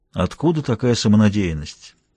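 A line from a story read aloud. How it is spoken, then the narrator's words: Dry. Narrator (Russian): сказал я сухо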